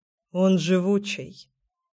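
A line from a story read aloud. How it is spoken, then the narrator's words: Indistinct mutter. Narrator (Russian): невнятно пробормотал Кир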